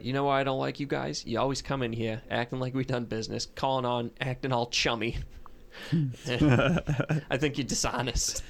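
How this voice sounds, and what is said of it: Boston accent, restrained angry yelling. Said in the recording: “yelled at me in a Boston accent ... super professional, not yelling, but really yelling at me”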